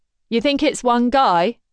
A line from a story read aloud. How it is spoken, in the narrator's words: shouts to Griffin's right